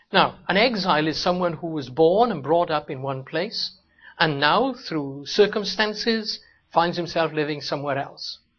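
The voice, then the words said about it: Welsh accent. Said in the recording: “you may be able to tell that by my accent ... my accent is Welsh”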